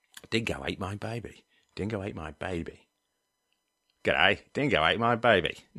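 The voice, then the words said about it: Weak put-on Australian accent. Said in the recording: “I'm not that great with an Australian accent”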